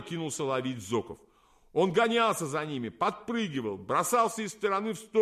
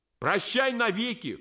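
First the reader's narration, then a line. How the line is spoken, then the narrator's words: Wailing while tumbling. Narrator (Russian): кувыркаясь в воздухе, вопил Миодов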